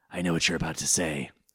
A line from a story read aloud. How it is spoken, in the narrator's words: Setokaiba responded in his trademark seething growl